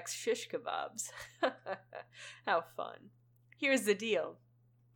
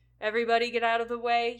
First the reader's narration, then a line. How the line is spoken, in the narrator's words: yells